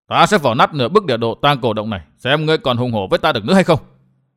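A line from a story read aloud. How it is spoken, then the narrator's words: Feigned anger. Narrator (Vietnamese): làm như giận dữ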